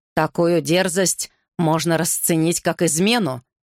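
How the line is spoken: Roar. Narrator (Russian): взревел Гарри

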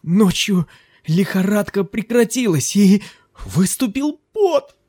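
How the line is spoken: Exclaimed. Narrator (Russian): воскликнул

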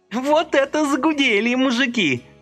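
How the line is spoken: Sobbing and shrieking. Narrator (Russian): рыдала и взвизгивала она

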